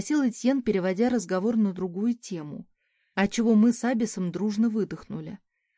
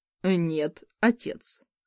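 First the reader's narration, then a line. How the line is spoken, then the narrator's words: Gloomy prince. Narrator (Russian): мрачно ответил принц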